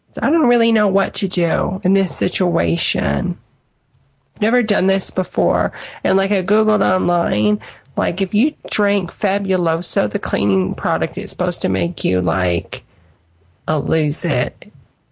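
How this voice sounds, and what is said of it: Cracking, tearful voice. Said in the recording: “my voice is cracking because I've been crying”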